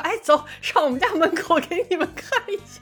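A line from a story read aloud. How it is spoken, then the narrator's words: With a little laugh. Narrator (Chinese): 笑一下，一会儿说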